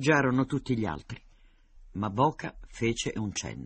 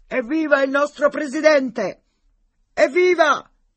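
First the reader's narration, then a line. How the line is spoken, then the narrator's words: Shouting, voice hoarse from cold. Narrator (Italian): Nemecek con voce alterata dal raffreddore gridò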